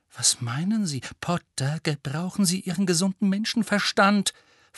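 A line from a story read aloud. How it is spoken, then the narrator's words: Stern hissing. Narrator (German): fauchte Professor McGonagall und war sofort wieder ganz die Alte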